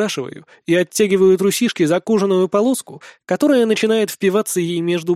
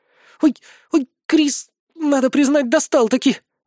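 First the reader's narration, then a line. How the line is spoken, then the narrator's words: Pleading. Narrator (Russian): взмолилась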